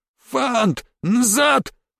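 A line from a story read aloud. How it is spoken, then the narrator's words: Pleading shout. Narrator (Russian): умоляюще крикнул Рубари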